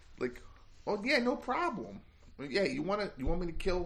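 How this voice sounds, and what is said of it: Put-on hoagie mouth regional accent. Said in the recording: “should I do a hoagie mouth? ... I'll do hoagie mouth ... Chicago Midwestern, Upper Midwestern ... going on the upper end of the spectrum”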